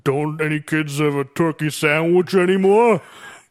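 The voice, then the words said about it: Unsteady imitation of another person's voice. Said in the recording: “I'm kind of doing Stallone now. My impression is just shifting all over the place.”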